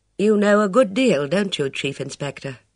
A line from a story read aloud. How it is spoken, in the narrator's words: She sighed